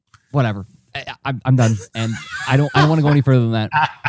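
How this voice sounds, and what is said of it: Imitates another person's voice. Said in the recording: “my Rob impersonation”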